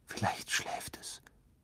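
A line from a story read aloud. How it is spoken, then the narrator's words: Whispered. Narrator (German): flüsterte er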